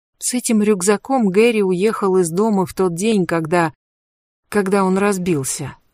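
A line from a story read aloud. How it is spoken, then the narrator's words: Plain. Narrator (Russian): ответила Кэтрин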